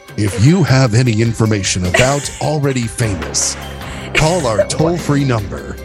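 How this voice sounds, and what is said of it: Announcer-style radio voice. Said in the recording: “that's your radio voice coming out”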